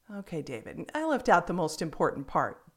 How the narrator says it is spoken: Jeremy laughed

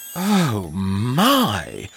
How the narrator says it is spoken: gasped Ernest's mother

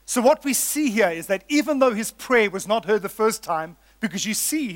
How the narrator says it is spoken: he cried out

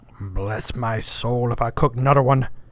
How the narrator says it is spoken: growled angrily

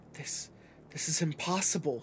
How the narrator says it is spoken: she whispered

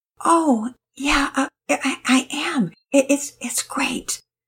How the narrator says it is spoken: Penelope answered, her voice barely above a whisper

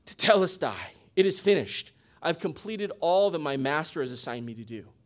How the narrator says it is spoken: tired but satisfied, he would sigh

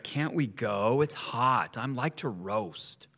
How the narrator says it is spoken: His passenger cried

